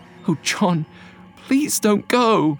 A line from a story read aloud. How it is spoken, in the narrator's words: she said, her voice trembling with anxiety